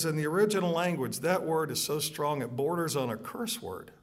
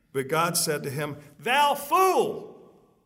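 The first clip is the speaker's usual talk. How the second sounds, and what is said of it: Suddenly raised, loud voice. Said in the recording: “raise my voice”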